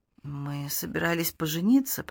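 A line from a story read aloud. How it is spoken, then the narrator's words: Mumbled. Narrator (Russian): пробормотала Долли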